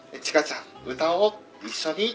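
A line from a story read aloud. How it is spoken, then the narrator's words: Plain. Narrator (Japanese): って言って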